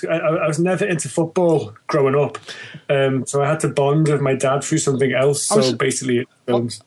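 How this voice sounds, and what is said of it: Liverpool (Scouse) accent. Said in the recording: “You're not native to London, though, obviously, by the accent. ... No, I'm Liverpudlian, born and bred, originally.”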